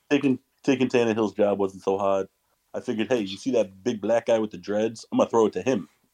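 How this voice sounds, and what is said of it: Imitates another person's voice, inconsistently. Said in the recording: “the imitation kind of like fluctuated throughout the entire thing”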